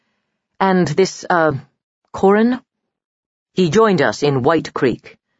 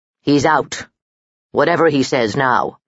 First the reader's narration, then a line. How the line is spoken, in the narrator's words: growled Stammel